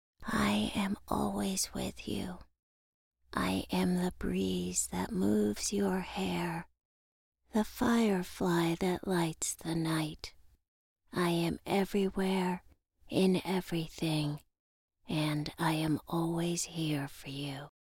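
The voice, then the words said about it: Very soft gentle voice. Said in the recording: “In an incredibly soft voice”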